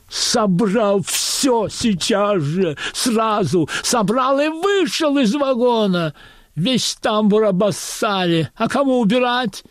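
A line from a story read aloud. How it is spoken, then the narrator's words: Frantic shrieking. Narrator (Russian): истошно вопит проводница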